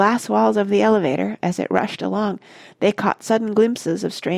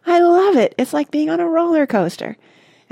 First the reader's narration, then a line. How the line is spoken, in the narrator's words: Charlie shouted